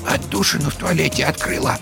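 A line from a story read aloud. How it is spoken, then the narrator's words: Quiet. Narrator (Russian): тихо сообщила она Вовке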